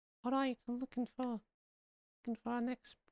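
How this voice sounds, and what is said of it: Imitates another person's voice. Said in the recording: “Go on, continue with that uh, accent ... is that how he talks?”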